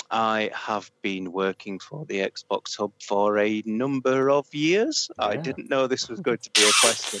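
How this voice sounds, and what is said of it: Northern English accent. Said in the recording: “Hence my fetching northern accent. ... We've got two northerners today”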